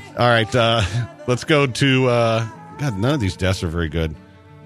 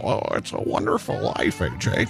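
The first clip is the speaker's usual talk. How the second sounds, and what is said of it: Jimmy Stewart impression. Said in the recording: “I used to do a really good Jimmy Stewart impression ... Are you going to do a Jimmy Stewart impression?”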